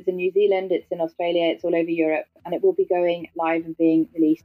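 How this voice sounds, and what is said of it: British accent. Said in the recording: “my clunky British accent”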